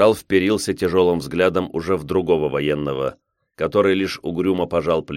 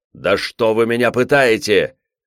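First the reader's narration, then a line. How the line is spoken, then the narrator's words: Shouted. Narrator (Russian): Амелин закричал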